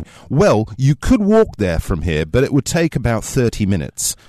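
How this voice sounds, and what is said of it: Middle class British accent. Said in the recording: “I'm doing my best sort of middle class British accent there, not too fancy, mm. not too cockney.”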